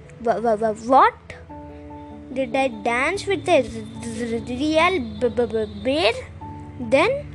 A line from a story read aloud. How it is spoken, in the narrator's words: stammered Hema